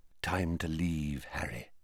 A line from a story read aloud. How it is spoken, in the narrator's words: said Dumbledore quietly